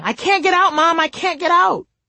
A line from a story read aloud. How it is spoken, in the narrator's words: yelling